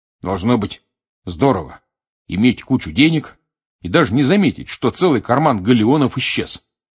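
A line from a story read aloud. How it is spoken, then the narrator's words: Curt, clipped. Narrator (Russian): отрывисто сказал Рон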